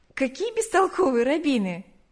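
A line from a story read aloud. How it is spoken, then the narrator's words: Laughing. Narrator (Russian): засмеялась она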